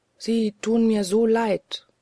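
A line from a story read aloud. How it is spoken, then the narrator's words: Plain. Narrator (German): sagte sie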